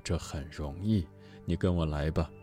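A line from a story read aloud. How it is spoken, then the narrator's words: Smiling. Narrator (Chinese): 禅师笑着说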